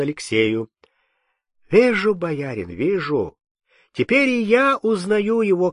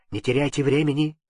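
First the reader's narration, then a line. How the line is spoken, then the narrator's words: Hurried. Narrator (Russian): сказал торопливо Кирша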